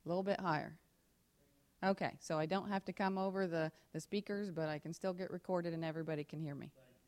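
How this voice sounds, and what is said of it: Loud, projecting teacher voice. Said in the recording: “Am I loud enough if I use my teacher voice”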